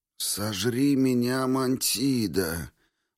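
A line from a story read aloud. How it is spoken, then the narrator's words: Groan. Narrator (Russian): простонал Квинт Фабий Веспа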